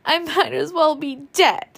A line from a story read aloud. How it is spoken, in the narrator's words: she sobbed passionately